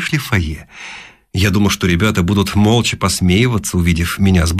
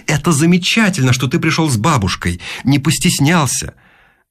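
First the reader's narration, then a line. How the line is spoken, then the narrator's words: Exclaiming mother. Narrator (Russian): мамаша из родительского комитета и воскликнула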